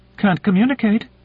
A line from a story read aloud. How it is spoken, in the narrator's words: said Kalinin, her voice rising to a near squeak in what was either surprise or indignation